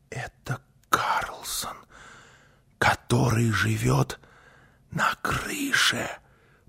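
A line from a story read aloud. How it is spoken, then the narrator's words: Whispering. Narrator (Russian): прошептала Гунила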